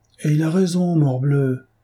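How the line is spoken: Crying out. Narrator (French): s'écria le duc de Chartres

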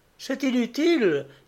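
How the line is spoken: Woman exclaiming. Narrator (French): s'écria la Languedocienne

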